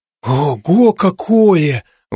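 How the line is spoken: Breathless exclamation. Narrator (Russian): выдохнул Лева

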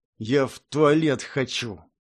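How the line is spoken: Mumbled through clenched teeth. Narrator (Russian): промычал чужак сквозь зубы

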